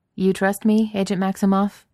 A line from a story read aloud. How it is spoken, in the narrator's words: he said